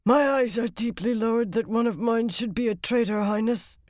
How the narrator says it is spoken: she said hoarsely

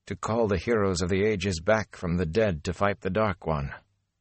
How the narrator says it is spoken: Nynaeve said in a shaky voice

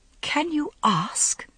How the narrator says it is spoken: she whispered

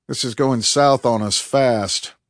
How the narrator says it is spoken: Tate grumbled

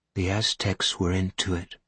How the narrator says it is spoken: she said evenly

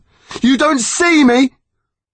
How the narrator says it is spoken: Harry shouted back

